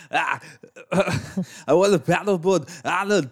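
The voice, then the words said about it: Arnold Schwarzenegger impression. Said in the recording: “unless you're Arnold Schwarzenegger. Want to do that imitation?”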